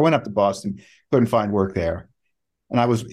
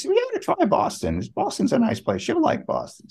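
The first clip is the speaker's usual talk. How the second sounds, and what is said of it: High-pitched Cuban accent impression. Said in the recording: “imitating his Cuban accent, by the way. He was a wonderful 60-year-old Cuban architect, always spoke in a very high voice.”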